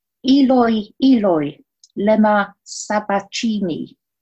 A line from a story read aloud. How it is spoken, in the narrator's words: Jesus cried out in a large voice